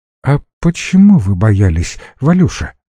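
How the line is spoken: Gentle question. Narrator (Russian): мягко спросила ее Лена

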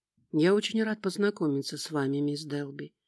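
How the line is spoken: Soft voice. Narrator (Russian): мягким голосом произнес Нейтан

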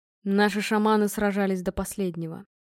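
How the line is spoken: Quiet voice. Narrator (Russian): сказал тихо

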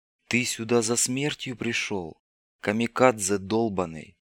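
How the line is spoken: Whisper. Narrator (Russian): прошептал проводник

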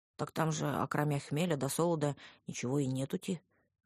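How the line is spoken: Confused deep voice. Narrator (Russian): растерянно пробасил он

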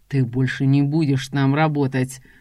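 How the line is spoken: Angry, through gritted teeth. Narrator (Russian): Зло цедит сквозь стиснутые зубы

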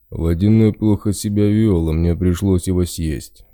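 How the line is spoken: Bear's deep bass. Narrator (Russian): пробасил медведь

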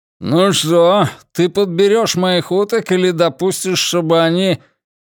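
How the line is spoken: Grumbled around a cigar. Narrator (Russian): проворчал, не вынимая изо рта сигары

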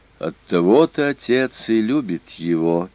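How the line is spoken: Sad. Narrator (Russian): печально сказала Лак

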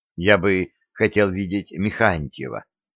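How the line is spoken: Timid. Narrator (Russian): робко сказал Коля

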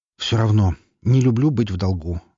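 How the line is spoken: Sighing. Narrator (Russian): вздохнул я

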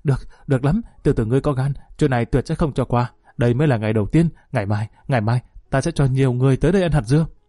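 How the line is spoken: Panting, through gritted teeth. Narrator (Vietnamese): Thái Du thở hổn hển nghiến răng nói

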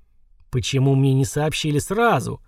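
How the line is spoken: Furious hiss. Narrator (Russian): разъяренно прошипел Ланик

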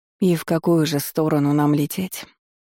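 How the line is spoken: Dejected voice. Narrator (Russian): Лориан проговорила упавшим голосом

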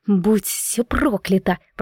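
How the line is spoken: Hiss. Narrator (Russian): прошипела я

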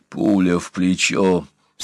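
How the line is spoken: Through gritted teeth. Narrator (Russian): сквозь зубы процедил тот

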